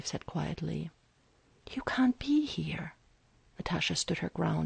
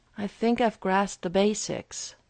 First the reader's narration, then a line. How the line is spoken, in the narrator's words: Steve replied bitterly